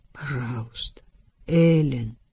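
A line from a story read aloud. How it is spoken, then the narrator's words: Hoarse. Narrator (Russian): хрипло сказал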